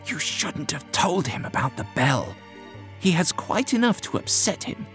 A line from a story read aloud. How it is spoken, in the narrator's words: Whittam hissed to the doctor